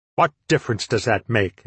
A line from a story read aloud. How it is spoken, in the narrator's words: asked the Lego harshly